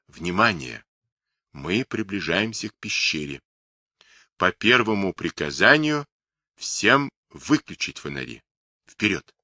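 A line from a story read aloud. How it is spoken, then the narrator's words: Near whisper. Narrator (Russian): Старший лейтенант тихо, почти шепотом произнес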